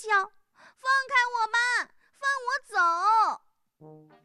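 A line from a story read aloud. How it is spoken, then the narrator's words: Shrieking while struggling. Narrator (Chinese): 小猪一边挣扎一边尖叫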